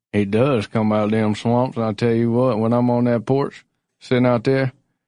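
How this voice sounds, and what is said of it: Put-on weird folksy accent. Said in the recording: “Oh, this is getting weird, this accent ... weirding me out real bad”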